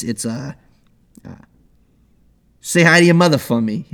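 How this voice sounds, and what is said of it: Put-on Long Island New York accent. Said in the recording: “that's like New York. That's like, yeah, that's like Long Island ... This is Long Island ... That's just a bad Christopher Walken now ... bad Christopher Walken is most of my accents”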